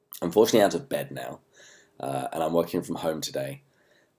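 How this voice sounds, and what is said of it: Unwell, strained voice. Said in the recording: “As you can hear, my voice still isn't that great.”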